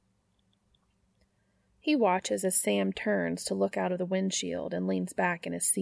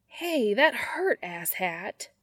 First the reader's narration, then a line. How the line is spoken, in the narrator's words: Sam whines